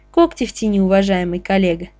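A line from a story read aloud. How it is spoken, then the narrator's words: Deliberately calm, in unison. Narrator (Russian): посоветовал Шаронов нарочито спокойно Павлову в унисон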